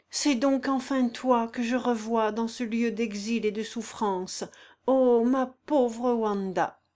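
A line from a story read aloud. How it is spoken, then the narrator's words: Heartbroken sighing cry. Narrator (French): s'écria-t-il en poussant un soupir qui semblait briser sa poitrine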